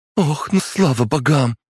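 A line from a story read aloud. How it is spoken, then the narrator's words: Breathless exclamation. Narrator (Russian): воскликнула прибежавшая обратно Ульяна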